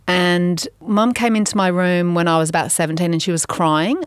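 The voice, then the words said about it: Slight English accent. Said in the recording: “which is why I have a bit of an English accent, even though I am French”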